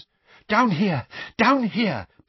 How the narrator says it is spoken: panted Mr

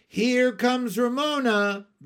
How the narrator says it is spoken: the other boys and girls shouted

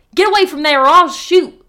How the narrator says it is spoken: hollered

